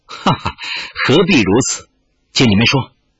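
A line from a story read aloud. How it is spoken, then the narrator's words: Laughing. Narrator (Chinese): 玉罗刹笑道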